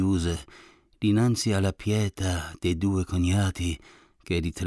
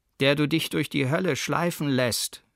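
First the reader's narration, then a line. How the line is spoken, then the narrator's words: Calling out. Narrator (German): rief er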